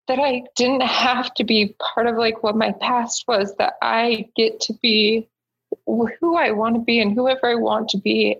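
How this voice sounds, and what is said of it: Emotional, choked-up speech. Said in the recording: “I'm getting emotional.”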